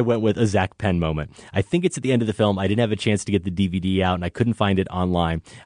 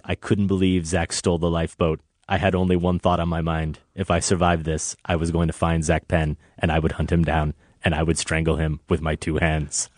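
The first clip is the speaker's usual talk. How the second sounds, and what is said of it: Bad Werner Herzog impression, Bavarian accent. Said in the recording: “That was my really bad. ... were you doing Herzog there? ... Bavarian accent.”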